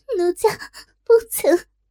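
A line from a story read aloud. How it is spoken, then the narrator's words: Dazed crying. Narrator (Chinese): 若真失神哭道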